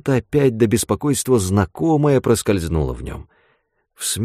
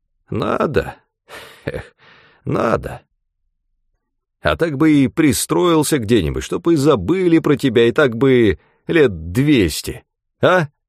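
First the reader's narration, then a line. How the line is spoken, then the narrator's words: Old man laughing cheerfully. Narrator (Russian): Старик засмеялся весело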